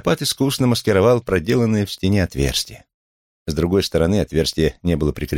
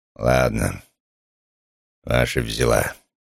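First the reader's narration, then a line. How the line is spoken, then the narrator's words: Grumbling. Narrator (Russian): пробурчал он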